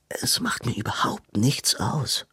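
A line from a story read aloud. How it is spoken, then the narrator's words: Groaning. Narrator (German): stöhnte Robin auf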